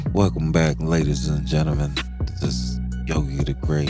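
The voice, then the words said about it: Put-on sexy voice. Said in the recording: “Put my sexy voice on.”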